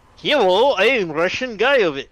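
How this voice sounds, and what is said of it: Put-on Russian accent. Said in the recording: “I don't know if I can pull off that kind of accent ... fake beard and Nushanka hat, and we call you vodka instead”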